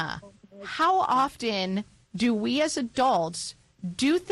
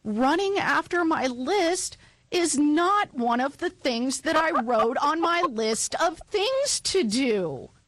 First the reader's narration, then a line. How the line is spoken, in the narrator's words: wailed Toad